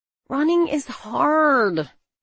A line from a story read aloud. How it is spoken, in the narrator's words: I whined